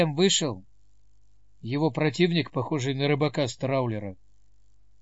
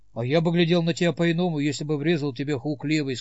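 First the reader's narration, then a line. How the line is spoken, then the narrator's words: Plain. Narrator (Russian): сказал Сэм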